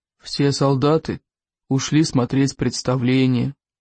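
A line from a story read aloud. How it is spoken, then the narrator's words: Sad reply. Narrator (Russian): грустно отозвался Громель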